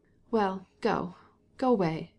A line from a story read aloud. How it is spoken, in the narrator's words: she said in an injured tone